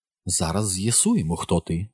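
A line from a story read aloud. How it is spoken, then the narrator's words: Strange confiding tone. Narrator (Ukrainian): сказала вона якимось дивним довірчим тоном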